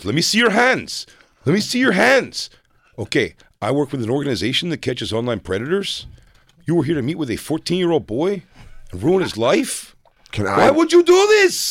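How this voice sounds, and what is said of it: Imitates another person's voice. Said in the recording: “I am fucking, by the way, killing it. in that impression.”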